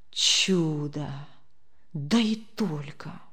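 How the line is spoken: Low, hushed voice. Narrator (Russian): вполголоса произнес Демьян Лукич

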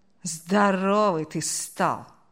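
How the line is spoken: Dismayed drawl. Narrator (Russian): С огорчением протянул он

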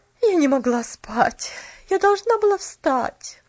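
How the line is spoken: Weary sigh. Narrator (Russian): Устало вздохнула тетя Поли

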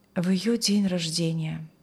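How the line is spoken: Sighing. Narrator (Russian): вздохнул он

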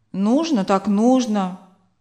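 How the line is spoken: Grumbling. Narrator (Russian): проворчал он

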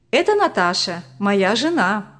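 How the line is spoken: Joyful. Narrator (Russian): радостно представил Виталий

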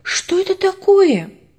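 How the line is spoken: Sudden shout. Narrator (Russian): Внезапно Ваня закричал

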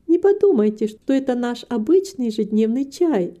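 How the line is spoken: Laughing. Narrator (Russian): засмеялась Рита

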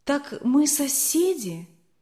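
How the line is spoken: Excited. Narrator (Russian): все еще взволнованно сказала Алина

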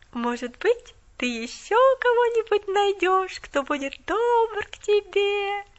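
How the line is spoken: Singsong drawl. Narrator (Russian): Нараспев протянула она

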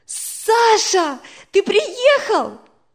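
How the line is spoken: Exclaim. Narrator (Russian): воскликнула Надя

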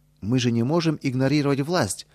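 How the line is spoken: Exclamation. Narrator (Russian): воскликнул Петр Федорович

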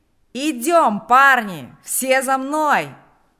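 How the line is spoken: Shouting. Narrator (Russian): кричал Панас

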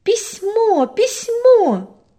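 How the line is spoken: Joyful shout. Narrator (Russian): радостно закричала Аня

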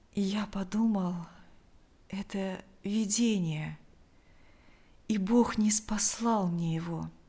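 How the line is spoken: Weak voice. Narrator (Russian): ответил Лукьян слабым голосом

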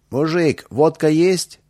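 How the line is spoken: Shout. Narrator (Russian): один из них крикнул

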